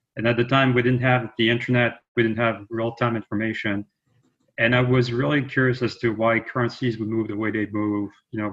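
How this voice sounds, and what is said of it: French accent in English. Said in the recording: “As you may be able to tell from my voice, I'm actually French.”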